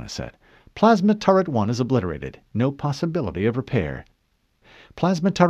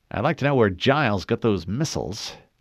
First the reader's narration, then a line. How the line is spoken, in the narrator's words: Lieutenant Haverson muttered